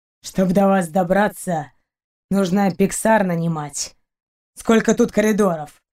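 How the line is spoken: Grumbled. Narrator (Russian): проворчал Рианец

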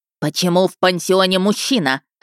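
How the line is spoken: Deep barking voice. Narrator (Russian): рявкнула она на сестру Эльзу басом

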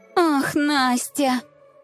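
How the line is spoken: Theatrical sigh. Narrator (Russian): театрально вздохнула Любава

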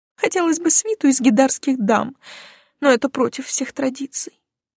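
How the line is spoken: Sighing. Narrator (Russian): вздохнула Илона

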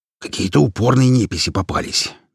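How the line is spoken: Displeased grumble. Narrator (Russian): недовольно проворчал Хромой

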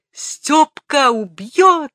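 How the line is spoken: Desperate shrill scream. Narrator (Russian): закричал отчаянный визгливый голос

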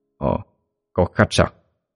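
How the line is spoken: Amused muttering. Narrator (Vietnamese): miệng nhích lên đầy hài hước, tự lẩm bẩm nói

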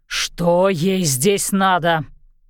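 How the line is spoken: Growl. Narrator (Russian): прорычал он

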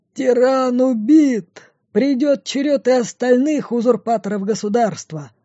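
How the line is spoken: Yelling. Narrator (Russian): Орал он

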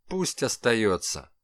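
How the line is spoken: Dry. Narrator (Russian): сухо сказал Калашников

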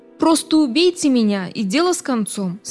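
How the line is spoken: Plain. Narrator (Russian): сказал Билл

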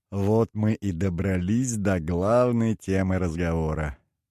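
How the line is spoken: Laughing. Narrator (Russian): вновь рассмеялся Обедолов

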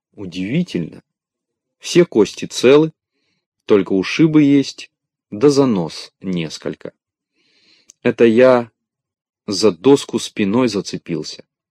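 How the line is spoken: Plain. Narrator (Russian): сказал Незнайка

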